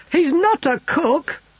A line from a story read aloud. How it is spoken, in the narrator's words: he wailed